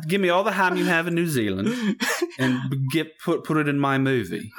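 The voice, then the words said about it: Put-on New Zealand accent. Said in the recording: “New Zealand accent.”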